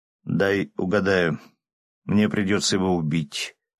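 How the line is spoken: Smirking grunt. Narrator (Russian): хмыкнул я

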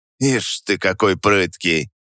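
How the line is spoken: Grumbling. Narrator (Russian): пробурчал он

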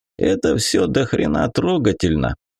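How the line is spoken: Grumbling. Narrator (Russian): проворчал со своего места Гоша

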